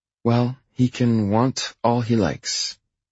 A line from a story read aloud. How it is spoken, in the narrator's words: she says, her tone prim